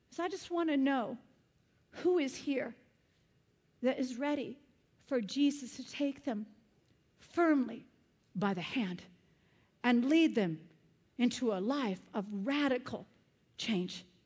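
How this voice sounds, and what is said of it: Yelling preacher. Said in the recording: “this Sicilian woman is yelling at you ... I'm yelling”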